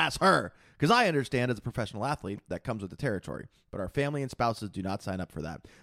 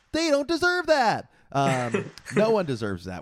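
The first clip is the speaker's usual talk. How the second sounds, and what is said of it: Imitates another person's voice. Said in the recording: “I'm reading this in Aziz's voice ... You did the Aziz voice.”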